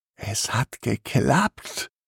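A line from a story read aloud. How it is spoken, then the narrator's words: Excited whisper. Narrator (German): flüstert Timmy begeistert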